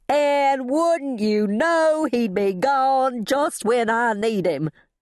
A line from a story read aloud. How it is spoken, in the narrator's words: I wailed